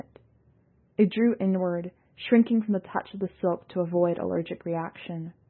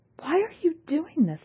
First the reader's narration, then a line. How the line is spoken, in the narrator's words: Yalnus cried